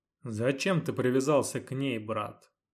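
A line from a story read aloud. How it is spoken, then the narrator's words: Reproachful yet calm. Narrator (Russian): Укоризненно, но на удивление спокойно заметил Илур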